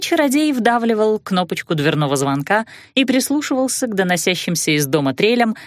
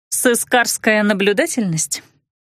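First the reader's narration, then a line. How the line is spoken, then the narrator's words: Skeptical snort. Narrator (Russian): хмыкнула я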